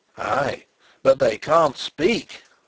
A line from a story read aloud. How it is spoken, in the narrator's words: roared Zapt in grim triumph